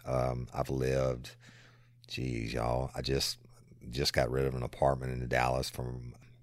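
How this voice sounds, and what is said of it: South Louisiana accent. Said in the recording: “I love your accent. ... born and raised in South Louisiana”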